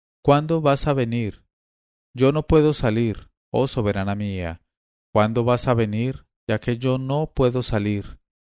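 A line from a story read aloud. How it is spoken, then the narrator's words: Tearful, after long weeping. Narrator (Spanish): cuando hubieron llorado y suspirado y gemido durante una hora, el joven dijo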